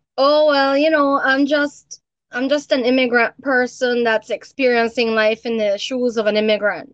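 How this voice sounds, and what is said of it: Belizean accent. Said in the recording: “Even your accent, I can't put it anywhere that I'm familiar with. ... Yeah, it's a Belizean accent. It's oftentimes it's confused for Jamaican. ... I do believe I sound more Guyanese.”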